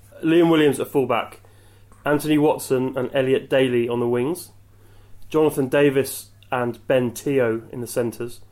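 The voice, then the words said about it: James Alexander Gordon impression. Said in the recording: “in your best James Alexander Gordon accent”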